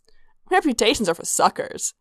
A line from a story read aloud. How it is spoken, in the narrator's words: Sanguine said cheerfully